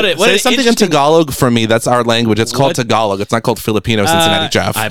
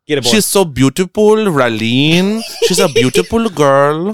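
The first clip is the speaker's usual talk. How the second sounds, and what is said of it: Put-on Filipino accent. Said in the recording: “say it with a Filipino accent”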